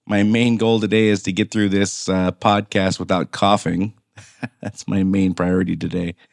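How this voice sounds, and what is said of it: Damaged, sick-sounding voice. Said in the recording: “apologize for my voice. It was my turn to get COVID, apparently. So that has wreaked havoc on my voice for sure.”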